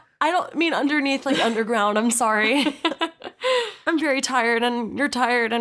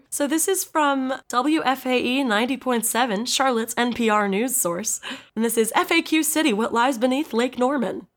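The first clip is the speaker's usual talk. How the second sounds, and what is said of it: Announcer-style radio voice. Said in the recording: “I did my radio voice.”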